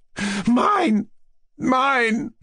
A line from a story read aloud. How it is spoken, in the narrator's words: she cried